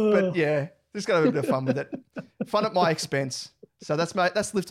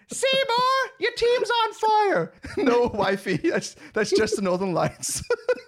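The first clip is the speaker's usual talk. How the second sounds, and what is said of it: Terrible Simpsons character impersonations. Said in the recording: “terrible impersonations ... A Simpsons gag in there, Simpsons reference”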